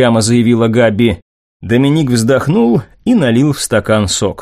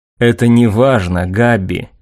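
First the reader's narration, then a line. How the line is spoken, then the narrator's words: Gentle young man. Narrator (Russian): мягко ответил юноша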